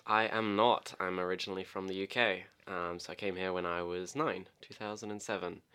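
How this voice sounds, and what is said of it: Mixed English and Australian accent. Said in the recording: “my accent is just a strange hybrid between Australian and English ... anyone Australian would say that you're English immediately, but I'm sure your English family would say you sound Aussie ... Everyone says I sound Aussie.”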